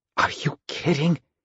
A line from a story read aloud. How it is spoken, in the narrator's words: he asked, barely able to speak in a whisper